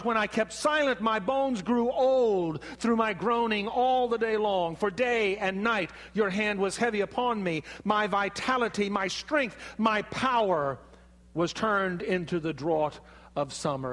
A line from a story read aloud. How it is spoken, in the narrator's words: King David, when his sin was found out and the punishment of God was laid upon him, David cried out